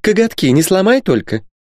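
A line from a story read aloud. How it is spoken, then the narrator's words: Mouse, thin giggle. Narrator (Russian): Мышь тоненько хихикнула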